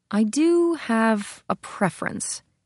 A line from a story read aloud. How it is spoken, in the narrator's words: Gabriella said slowly